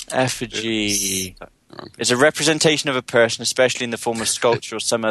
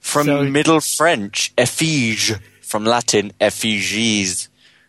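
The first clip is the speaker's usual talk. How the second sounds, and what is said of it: Put-on French accent. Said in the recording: “French accent you just did there? That sounds like the scary French accent.”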